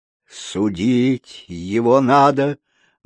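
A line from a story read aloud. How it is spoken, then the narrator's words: Gloomy mutter. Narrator (Russian): мрачно пробормотал клоун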